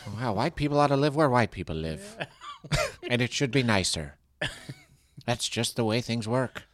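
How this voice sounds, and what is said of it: Ronald Reagan impression. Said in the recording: “I was doing a Reagan impression.”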